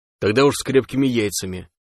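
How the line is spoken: Amused snort, anger fading. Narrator (Russian): хмыкнул сталкер, внезапно перестав сердиться

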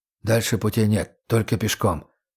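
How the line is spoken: Whispered. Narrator (Russian): шепнул Бич

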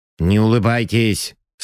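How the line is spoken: Stern command. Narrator (Russian): строго приказал Мефодий Ильич

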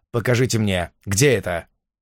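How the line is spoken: Sharp interruption. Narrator (Russian): Я резко прервал ее излияние

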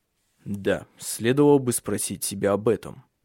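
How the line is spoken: Muttered. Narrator (Russian): пробормотал Тенгель

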